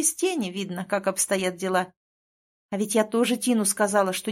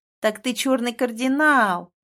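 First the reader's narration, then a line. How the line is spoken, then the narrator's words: Cheerful. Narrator (Russian): весело сказала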